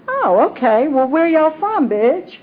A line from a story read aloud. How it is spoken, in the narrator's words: smiled cheerfully and said